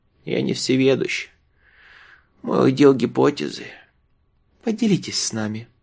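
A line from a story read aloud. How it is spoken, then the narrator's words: Affectionate. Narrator (Russian): ласково предложила Юлия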